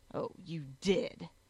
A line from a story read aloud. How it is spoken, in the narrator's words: he snarled